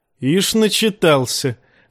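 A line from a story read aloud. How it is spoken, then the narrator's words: Laughing. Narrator (Russian): засмеялся Брон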